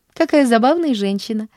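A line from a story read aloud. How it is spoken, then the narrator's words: Laughing. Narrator (Russian): засмеялась Поллианна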